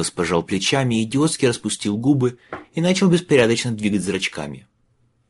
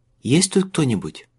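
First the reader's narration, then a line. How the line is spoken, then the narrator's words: Quiet reply. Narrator (Russian): негромко откликнула она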